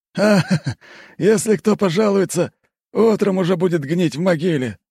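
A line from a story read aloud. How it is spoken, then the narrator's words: Laughing. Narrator (Russian): рассмеялся тот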